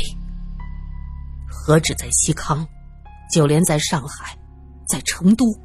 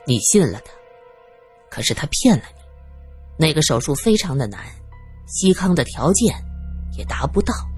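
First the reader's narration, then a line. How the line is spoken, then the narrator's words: Sighing. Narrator (Chinese): 罗隐忍不住叹了口气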